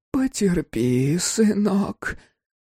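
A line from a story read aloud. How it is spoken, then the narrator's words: Mother's whisper. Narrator (Russian): прошептала мать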